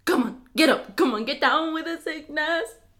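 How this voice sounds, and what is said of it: Bad put-on Jamaican accent. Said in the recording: “Sound like you're trying to do a Jamaican accent, but really bad at it.”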